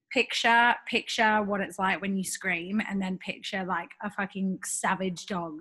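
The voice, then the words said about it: Hoarse, croaky voice. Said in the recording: “you can probably hear from my voice, I've got this like sexy, croaky shit.”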